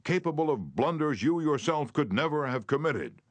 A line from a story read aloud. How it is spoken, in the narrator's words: he shouted